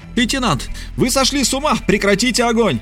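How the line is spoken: Woman screaming. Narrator (Russian): Женщина снова закричала

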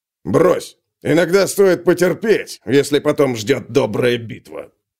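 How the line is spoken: Low booming drone. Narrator (Russian): прогудел Нижний

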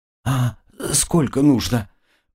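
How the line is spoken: Breathless. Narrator (Russian): выдохнула хозяйка дома

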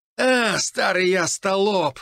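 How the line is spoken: Loud lamenting. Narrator (Russian): громко запричитал Саныч

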